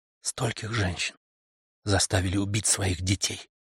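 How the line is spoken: Whisper. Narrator (Russian): прошептала она

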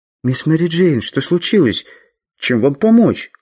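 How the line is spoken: Timid question. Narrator (Russian): робко спросил я

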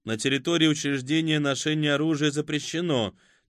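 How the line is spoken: Level, even voice. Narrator (Russian): тем же ровным голосом сказал Виц

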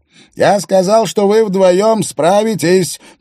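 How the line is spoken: Shouted. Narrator (Russian): прокричал Рингдалл

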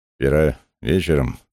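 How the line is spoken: Mumbled. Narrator (Russian): промямлил он

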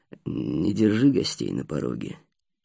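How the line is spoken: Grumbling, strange intonation. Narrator (Russian): проворчал Вукуп с какой-то странной интонацией

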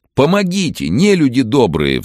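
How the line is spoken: Pleading. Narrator (Russian): взмолился Иван

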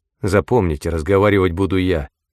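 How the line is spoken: Grim repetition. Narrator (Russian): Диксон мрачно повторил

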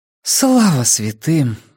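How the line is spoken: Breathed out relief. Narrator (Russian): выдохнула Нина

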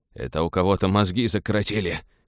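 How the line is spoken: Hoarse reply. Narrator (Russian): хрипло отозвался микробиолог

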